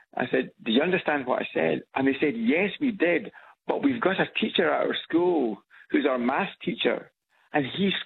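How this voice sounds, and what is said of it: Scottish accent. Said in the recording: “the Scots accent ... thought I was Irish ... there is a crossover between Scots and Irish accent”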